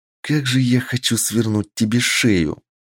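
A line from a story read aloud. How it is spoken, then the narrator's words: Angry whisper. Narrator (Russian): зло прошептала она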